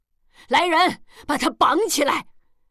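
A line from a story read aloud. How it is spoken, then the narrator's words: Old woman shouting. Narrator (Chinese): 王老太太喊一声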